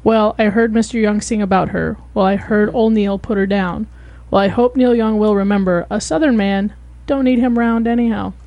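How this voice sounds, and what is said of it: Public-radio announcer reading voice. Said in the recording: “that was my NPR voice”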